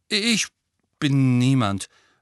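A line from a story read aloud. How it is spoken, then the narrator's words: Hasty. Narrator (German): sagte Neville hastig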